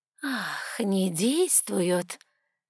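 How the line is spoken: Hissing. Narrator (Russian): прошипела она

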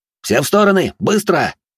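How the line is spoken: Sharp bark. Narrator (Russian): рявкнул я

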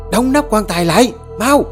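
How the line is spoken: Scream. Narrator (Vietnamese): Bà Dương thét lên

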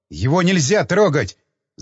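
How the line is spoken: Furious scream. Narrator (Russian): закричал я вне себя от ярости

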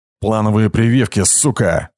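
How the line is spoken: Growling. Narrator (Russian): рычал

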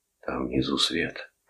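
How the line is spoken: Whisper. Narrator (Russian): прошептал Торн

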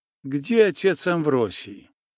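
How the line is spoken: Quiet colorless voice. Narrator (Russian): вопрос, заданный тихим, бесцветным голосом

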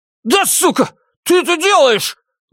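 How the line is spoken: Man shouting out. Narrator (Russian): выкрикнул в пространство мужчина

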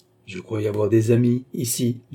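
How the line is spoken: Plain. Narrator (French): dit-il

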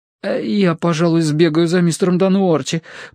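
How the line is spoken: Timid babble. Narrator (Russian): пролепетал новичок

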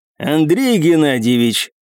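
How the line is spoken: Deep bass voice. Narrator (Russian): пробасил

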